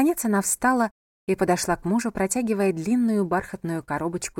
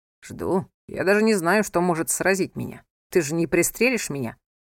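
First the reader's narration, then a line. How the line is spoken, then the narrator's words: Laughing. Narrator (Russian): засмеялся он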